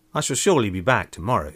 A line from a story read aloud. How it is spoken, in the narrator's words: he said